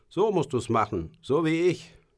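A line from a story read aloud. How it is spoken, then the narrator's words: Older boy calling out. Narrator (German): Mein 3 Jahre älterer Bruder Aristides … rief auf Deutsch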